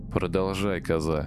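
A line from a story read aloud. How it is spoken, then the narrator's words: Grim demand. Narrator (Russian): мрачно потребовала я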